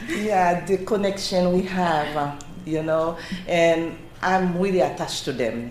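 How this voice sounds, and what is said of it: Speaks with a noticeable accent. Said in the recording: “my accent ... Your accent is fine.”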